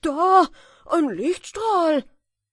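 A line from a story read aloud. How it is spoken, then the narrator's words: Excited shout. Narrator (German): Plötzlich rief der Schuster aufgeregt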